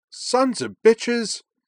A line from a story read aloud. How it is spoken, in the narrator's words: Gage cried from the statue platform